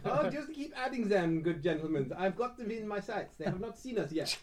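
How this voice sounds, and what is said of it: Put-on French accent, German-sounding. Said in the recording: “my French accent. German French accent.”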